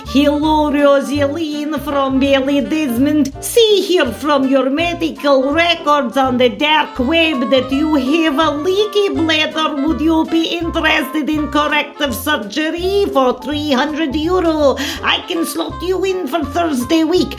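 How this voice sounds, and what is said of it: Put-on Russian accent. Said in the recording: “a Russian lad ... a foreigner with a sexy accent”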